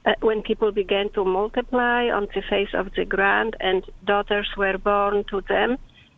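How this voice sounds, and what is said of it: Speaks with a beautiful accent. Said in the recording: “I love when you read the Bible in your accent. It's beautiful.”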